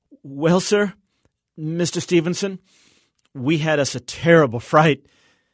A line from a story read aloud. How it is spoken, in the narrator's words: In a shaky voice, said